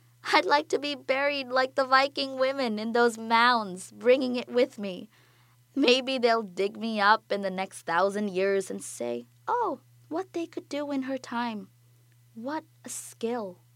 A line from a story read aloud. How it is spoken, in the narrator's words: she says, laughing